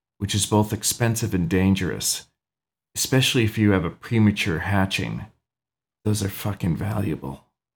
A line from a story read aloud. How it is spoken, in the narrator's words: Miss Merriweather whispered